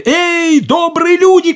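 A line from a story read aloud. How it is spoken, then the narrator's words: Shout. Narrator (Russian): крикнул он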